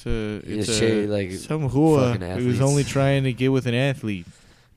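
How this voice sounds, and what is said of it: Funny voice, possibly Jersey accent. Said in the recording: “Did that in a Jersey accent? Was that a Jersey accent? ... say a funny voice.”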